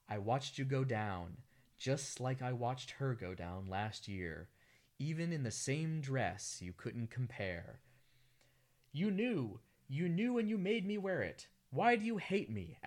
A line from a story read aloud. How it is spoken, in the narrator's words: asks Lucy